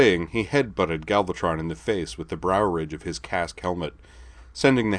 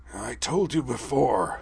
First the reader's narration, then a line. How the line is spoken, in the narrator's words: Megatron rasped